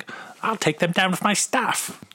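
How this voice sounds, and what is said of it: Imitates another person's voice. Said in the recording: “best Daisy Ridley imitation ever. ... That was good.”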